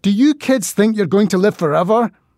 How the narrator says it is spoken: shouted

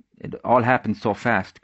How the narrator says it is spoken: Creedon stuttered

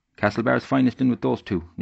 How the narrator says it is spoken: Noonan asked

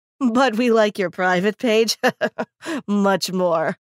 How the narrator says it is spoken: another laughed

